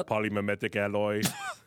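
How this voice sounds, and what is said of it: Terminator impression. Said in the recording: “great A Terminator impression. ... That was really good.”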